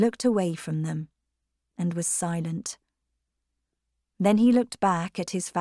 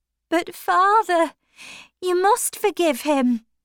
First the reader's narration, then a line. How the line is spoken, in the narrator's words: Maggie cried